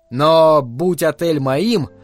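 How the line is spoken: Plain. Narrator (Russian): сказал Джек

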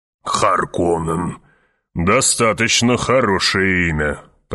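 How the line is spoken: Grumbling. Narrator (Russian): проворчал барон

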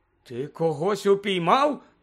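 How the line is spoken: Incredulous exclamation. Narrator (Ukrainian): недовірливо вигукнув містер Кравч

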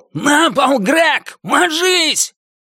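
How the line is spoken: Yell. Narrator (Russian): Санни Элиман заорал

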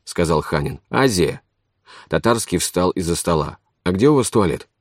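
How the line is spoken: Plain question. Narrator (Russian): спросил он

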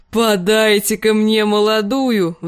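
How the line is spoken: Roared. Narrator (Russian): взревел он

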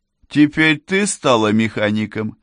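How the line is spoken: Snide question. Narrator (Russian): ехидно спросил коротышка

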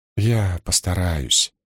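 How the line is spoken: Mumble. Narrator (Russian): промямлила она

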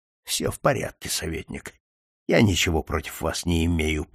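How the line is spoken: Muttered. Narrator (Russian): пробормотал Болдуин

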